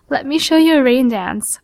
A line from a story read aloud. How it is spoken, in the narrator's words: sputter between giggles